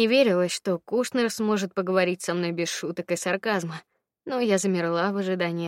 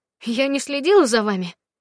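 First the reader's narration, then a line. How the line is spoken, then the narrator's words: Unconvincing exclamation. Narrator (Russian): не слишком правдоподобно воскликнула я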